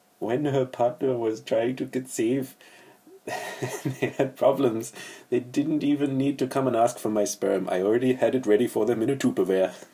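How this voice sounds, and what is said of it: Put-on Swedish accent. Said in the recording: “my Swedish impression”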